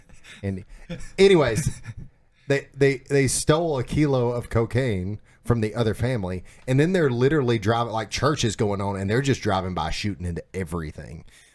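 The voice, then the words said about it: Alabama Southern accent. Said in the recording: “it's just the Alabama accent”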